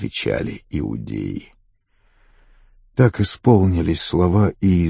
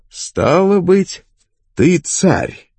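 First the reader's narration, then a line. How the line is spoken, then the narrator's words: Exclamation. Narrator (Russian): воскликнул Пилат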